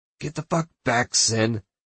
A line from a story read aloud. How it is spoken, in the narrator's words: Marlowe grunts